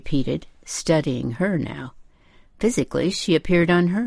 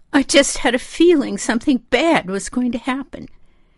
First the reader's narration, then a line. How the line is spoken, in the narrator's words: she moaned